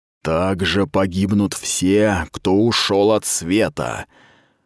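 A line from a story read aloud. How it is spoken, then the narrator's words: Menacing hiss. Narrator (Russian): прошипел обладатель ужасных глаз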